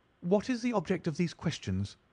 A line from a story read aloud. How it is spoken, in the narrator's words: she asked sharply